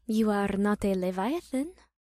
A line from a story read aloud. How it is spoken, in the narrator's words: she said quietly